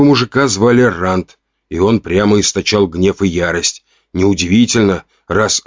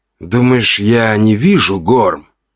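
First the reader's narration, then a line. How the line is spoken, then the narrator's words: Hiss. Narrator (Russian): прошипел второй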